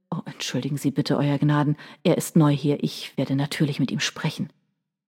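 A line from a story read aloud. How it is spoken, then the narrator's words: Murmur. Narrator (German): Johnston murmelte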